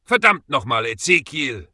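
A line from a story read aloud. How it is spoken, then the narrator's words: Growled. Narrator (German): knurrte Maggie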